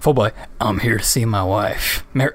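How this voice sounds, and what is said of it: Gruff southern-accented male voice. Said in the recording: “he doesn't have, like, that strong of a southern accent. I'm just doing Joel again ... big gruff man trying to voice”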